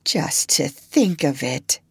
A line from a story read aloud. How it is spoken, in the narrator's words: murmured